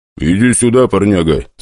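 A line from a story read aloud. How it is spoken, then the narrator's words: Deep bass voice. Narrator (Russian): сказал один из них глубоким басом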